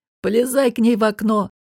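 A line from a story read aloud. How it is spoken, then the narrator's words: Laughing. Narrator (Russian): рассмеялся Кахир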